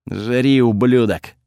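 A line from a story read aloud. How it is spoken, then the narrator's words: Angry. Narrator (Russian): зло сказал Готфред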